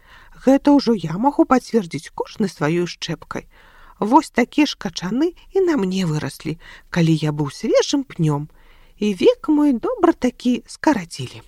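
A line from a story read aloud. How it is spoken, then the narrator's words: Old man sighing. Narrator (Belarusian): дадаў, уздыхнуўшы дзядуля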